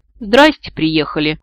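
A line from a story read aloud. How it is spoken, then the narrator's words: Snorting. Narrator (Russian): фыркнула я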